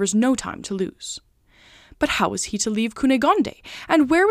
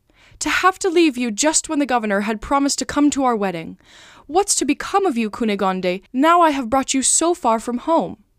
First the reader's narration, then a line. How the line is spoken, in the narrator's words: he exclaimed